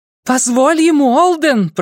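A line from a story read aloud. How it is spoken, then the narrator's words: Shouted. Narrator (Russian): прокричала Шелли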